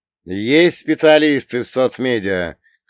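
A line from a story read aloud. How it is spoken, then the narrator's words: Shouted to a hall. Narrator (Russian): крикнул я в зал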